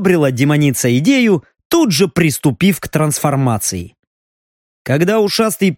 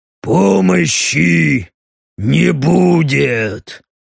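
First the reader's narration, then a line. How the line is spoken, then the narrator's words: Deep growling voice. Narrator (Russian): Утробным рычащим голосом сказал ему Стриж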